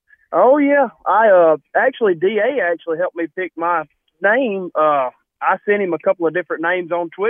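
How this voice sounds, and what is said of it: Southern American accent. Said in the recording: “the Southern accent. Nothing says Dixieland Dan like that Southern accent”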